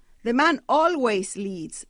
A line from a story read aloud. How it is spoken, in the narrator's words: the brutish woman exclaimed